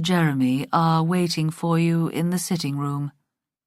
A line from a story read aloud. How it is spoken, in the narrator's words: he said stiffly